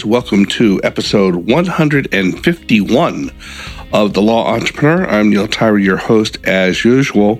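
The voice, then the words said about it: Congested voice from a cold. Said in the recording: “suffering from a cold that you might hear in my voice”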